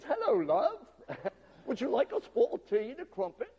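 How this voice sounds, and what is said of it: Put-on British accent. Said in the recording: “talking in a British accent.”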